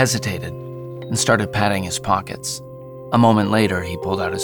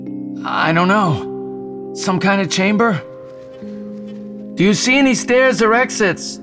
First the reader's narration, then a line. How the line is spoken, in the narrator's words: Jason yelled